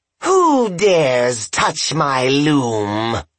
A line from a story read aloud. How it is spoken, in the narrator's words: she screeched